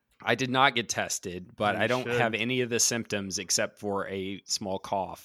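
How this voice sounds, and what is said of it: Raspy voice from a cold. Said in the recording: “I've caught a rare summer cold, and so my voice is a little more raspy ... my voice is definitely different than normal”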